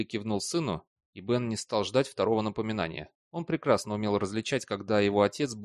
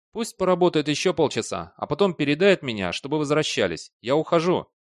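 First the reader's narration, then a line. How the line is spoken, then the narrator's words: Shouting. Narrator (Russian): Бейли крикнул Бену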